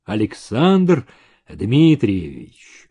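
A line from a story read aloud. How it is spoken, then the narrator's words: Muffled mumble, old man. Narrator (Russian): глухо пробормотал старик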